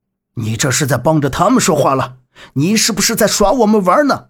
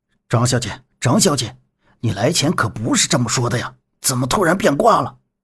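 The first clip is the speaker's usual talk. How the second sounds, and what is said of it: Low muttering voice. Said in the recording (Chinese): “小声嘀咕着”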